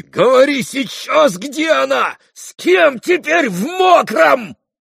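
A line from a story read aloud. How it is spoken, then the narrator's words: Yelling. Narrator (Russian): завопил он в выступлении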